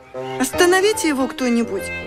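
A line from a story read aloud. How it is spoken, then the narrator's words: Bewildered plea. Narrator (Russian): растерянно попросила Маша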